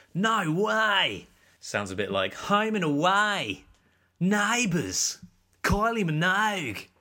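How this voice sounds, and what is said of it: Put-on Australian accent. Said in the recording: “one of my favourite things to say in an Australian accent.”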